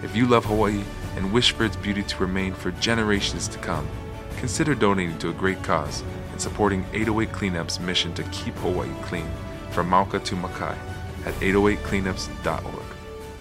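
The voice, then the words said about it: Sexy, smooth announcer voice. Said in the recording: “you have a sexy voice”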